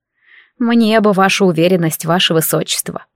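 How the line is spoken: Grumbling mutter. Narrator (Russian): буркнула Феодора

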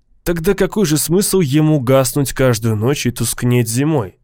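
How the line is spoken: Plain question. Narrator (Russian): спросил Лавон

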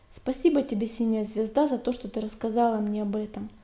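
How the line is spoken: Respectful purring. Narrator (Russian): почтительно промурлыкал он

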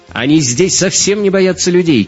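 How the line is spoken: Shouted. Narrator (Russian): крикнула Мария

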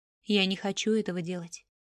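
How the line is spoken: Sighing reply. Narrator (Russian): вздохнув, отозвался Рю

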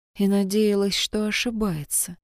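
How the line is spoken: Quiet. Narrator (Russian): тихо сказала Кайтон

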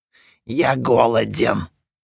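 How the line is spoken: Creature's creaking voice. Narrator (Russian): проскрипело существо, занявшее тело душекрада

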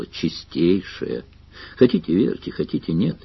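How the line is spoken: Tired. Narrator (Russian): сказал Сварог устало

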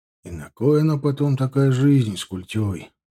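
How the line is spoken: Sorrowful sighing speech. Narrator (Russian): Вздохнув, горестно проговорил Хребтов

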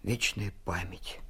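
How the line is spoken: Quiet. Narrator (Russian): сказал он тихо

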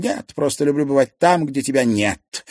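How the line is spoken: Snapped, female. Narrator (Russian): огрызнулась Поветруля

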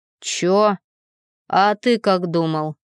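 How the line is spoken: Snorted. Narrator (Russian): фыркнула Лера

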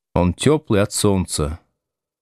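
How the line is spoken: Sad. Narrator (Russian): печально сказал Будкин

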